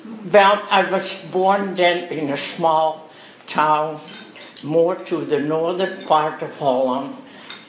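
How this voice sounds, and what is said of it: Dutch accent. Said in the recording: “So, you're born in Holland ... my accent is giving me away ... you just talk like him ... I know I have an accent”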